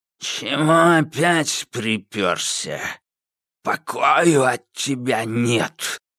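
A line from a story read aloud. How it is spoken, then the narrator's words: Creaky old man's voice. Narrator (Russian): проскрипел древний старик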